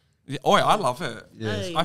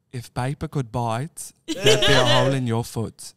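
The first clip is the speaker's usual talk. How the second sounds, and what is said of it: Attempted South African accent. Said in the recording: “Can you do the kind of accent? ... South African. ... A weird accent. ... I feel like it's like a mixture of like British and like New Zealand. ... Do you want to give it a go?”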